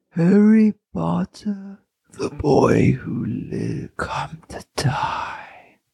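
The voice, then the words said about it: Voldemort villain voice impression. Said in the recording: “Here's the Voldemort impression.”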